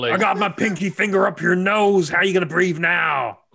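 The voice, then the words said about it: Put-on American wrestler accent. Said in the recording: “All of my American accents for wrestlers are the same accent.”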